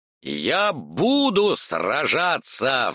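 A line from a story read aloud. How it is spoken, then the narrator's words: Furious roar. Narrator (Russian): взревела из озера ярость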